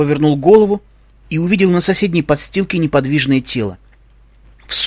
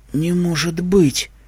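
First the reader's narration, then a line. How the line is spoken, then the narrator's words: Numb-lipped whisper. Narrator (Russian): прошептали его онемевшие губы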